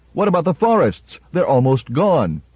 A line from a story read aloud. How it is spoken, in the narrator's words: One shouted